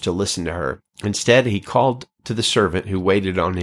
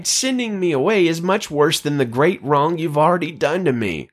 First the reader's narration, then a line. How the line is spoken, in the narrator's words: she cried